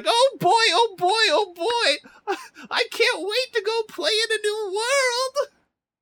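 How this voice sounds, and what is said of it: Bad, overexcited cartoon character voice. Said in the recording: “Calumon also has a voice. It's a bad voice ... do the bad voice? ... This is absolutely not the tone you should have ... Calumon is just very excited.”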